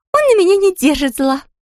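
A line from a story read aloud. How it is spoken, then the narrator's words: Exclaiming. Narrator (Russian): воскликнула она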